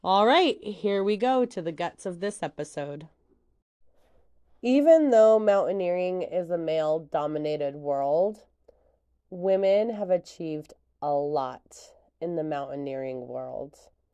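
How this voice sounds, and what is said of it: Slightly rough, congested voice. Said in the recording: “I sound a little rough.”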